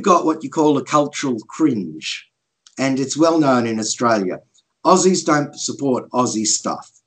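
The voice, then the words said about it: Australian accent. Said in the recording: “you probably don't hear an Aussie accent there very often ... I don't hear Aussie accents too often”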